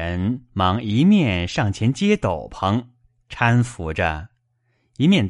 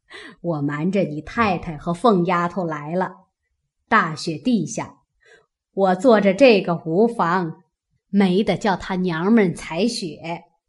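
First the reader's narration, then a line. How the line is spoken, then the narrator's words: Laughing. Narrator (Chinese): 贾母笑道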